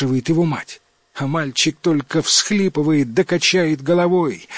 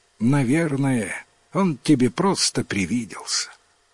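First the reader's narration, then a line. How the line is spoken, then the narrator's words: Mother sighing. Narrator (Russian): Вздохнула мать и говорит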